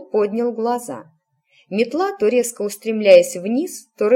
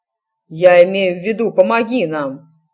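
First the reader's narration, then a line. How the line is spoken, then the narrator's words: Blunt bark. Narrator (Russian): рявкнул напролом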